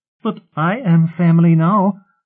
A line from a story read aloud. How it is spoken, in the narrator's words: Aeola whined